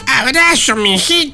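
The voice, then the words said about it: Old grandmother voice. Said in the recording (Spanish): “Decilo con voz de abuelita.”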